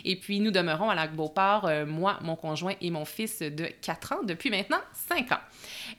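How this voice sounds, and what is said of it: Quebec French accent. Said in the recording (French): “vous entendez sans doute mon accent. Alors, je suis fièrement québécoise.”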